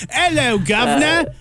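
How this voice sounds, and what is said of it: Exaggerated old-fashioned Cockney accent. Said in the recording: “the only British accent I can do is 1820s... Like uber Cockney... It needs some work”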